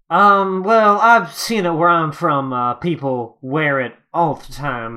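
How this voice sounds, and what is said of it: Wild West cowboy accent. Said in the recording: “your accent's also really good”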